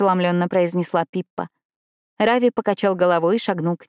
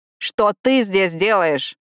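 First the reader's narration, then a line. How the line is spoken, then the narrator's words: Shouted reply. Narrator (Russian): крикнул Рави в ответ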